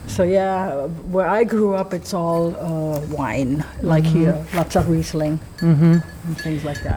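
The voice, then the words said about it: German accent. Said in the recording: “Am I detecting an accent? ... Yes. ... Germany.”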